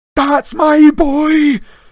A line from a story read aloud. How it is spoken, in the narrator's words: Wood kept yelling